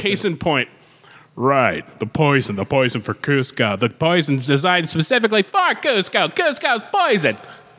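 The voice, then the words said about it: Imitates another person's voice. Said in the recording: “good impression ... that was not a pitch adjustment”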